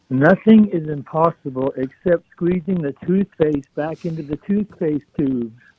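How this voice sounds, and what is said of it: Impression of Craig Hawkins. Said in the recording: “impersonation of Craig Hawkins... I got an impersonation of Craig Hawkins.”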